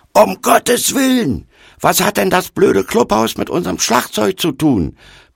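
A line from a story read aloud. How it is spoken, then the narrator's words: Furious roar. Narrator (German): brüllte er wutentbrannt in unsere Richtung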